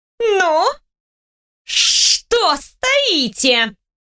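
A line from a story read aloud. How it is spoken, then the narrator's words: Low threatening hiss. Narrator (Russian): Ари низко угрожающе зашипела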